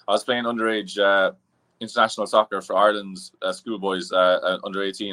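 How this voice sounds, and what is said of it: Irish accent. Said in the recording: “I was born and raised in Ireland. You probably hear the accents”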